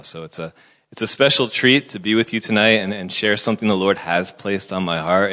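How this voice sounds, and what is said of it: American accent. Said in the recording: “my thick Afrikaans accent... It's so thick that you may actually think it's from another country, perhaps America. And if you are thinking that, you are correct. I used to be American”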